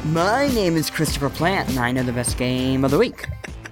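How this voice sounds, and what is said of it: Impression of Griffin McElroy. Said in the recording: “a Griffin impression ... That sounded pretty much like Griffin.”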